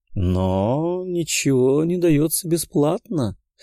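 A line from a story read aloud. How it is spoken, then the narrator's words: Purring. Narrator (Russian): промурлыкала Милофена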